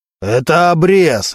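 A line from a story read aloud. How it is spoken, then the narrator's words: Barked. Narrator (Russian): рявкнул Мантуленко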